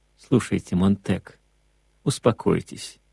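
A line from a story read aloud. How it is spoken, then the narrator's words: Old man's gentle coaxing. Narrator (Russian): мягко уговаривал старик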